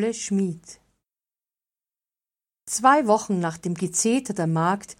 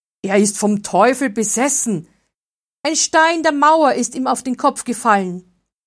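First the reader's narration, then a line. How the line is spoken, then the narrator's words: Calling out. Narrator (German): Einer rief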